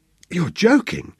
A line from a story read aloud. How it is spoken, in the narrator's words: gasped Sebastian